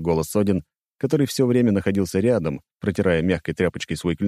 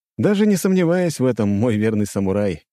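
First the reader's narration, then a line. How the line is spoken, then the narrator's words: Amused snort. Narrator (Russian): хмыкнул я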